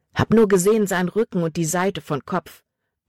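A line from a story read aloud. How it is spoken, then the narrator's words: Plain. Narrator (German): antwortete Jordan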